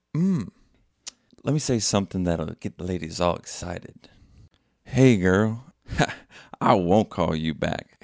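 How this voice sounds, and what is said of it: Put-on sexy voice imitating someone. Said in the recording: “Colton has a sexier voice ... Why does my voice sound oh so sexy now? ... I sound a little bit like Cole Teasy.”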